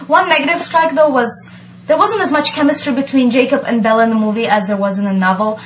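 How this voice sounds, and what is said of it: Slight Eastern European lilt, fast speech. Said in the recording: “I hear a slight Eastern European lilt. ... She's speaking too fast.”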